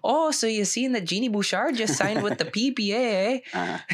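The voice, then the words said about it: Put-on Canadian accent. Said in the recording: “That's in my Canadian accent.”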